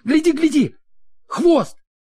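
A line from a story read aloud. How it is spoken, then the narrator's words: Sudden shout. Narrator (Russian): Вдруг кто-то крикнул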